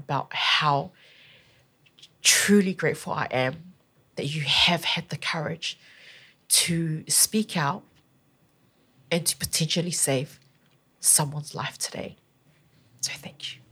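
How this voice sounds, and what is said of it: Emotional, moved voice. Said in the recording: “I'm a little bit emotional about it”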